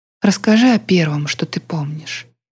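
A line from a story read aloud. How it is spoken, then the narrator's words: Gentle request. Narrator (Russian): мягко попросила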